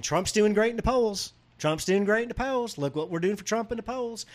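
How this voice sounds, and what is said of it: Kentucky accent impression of James Comer. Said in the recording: “You have his accent down. ... Well, you know, it's Kentucky. I love James Comer.”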